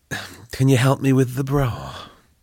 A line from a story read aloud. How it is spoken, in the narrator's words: Belinda groaned